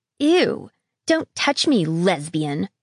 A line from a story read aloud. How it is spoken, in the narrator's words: spat